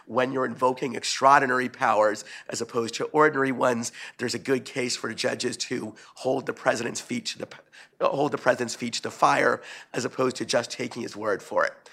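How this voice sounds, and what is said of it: Hoarse, fading voice. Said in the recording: “I'm beginning to lose my voice”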